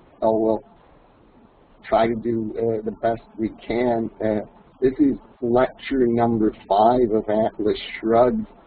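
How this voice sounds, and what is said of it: Voice rough from a cold. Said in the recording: “I got a bit of cold... my voice is even worse than usual”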